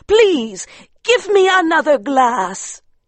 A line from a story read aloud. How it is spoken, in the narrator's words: she cried